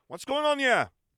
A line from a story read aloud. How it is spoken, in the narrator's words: exclaimed aloud